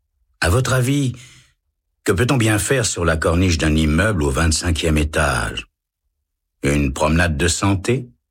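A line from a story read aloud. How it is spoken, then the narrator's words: Calm reply. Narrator (French): répond l'homme calmement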